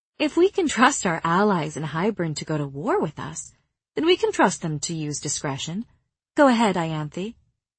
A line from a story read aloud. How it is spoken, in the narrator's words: I was cruel enough to say sweetly